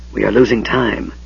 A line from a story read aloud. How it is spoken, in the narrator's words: the mage whispered